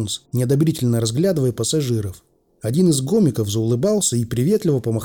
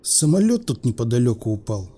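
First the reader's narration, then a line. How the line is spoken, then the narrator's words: Bored voice. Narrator (Russian): скучным голосом сказал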